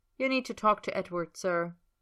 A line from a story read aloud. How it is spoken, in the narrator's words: she says flatly